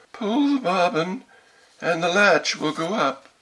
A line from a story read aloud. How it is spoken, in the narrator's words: The good grandmother, who was in bed because she was somewhat ill, cried out